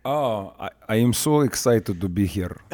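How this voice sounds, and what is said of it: Exaggerated Russian accent. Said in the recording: “That wasn't a good enough Russian accent for me. ... Ah, there we go. That is way better.”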